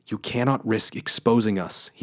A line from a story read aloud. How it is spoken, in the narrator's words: he whispered, desperately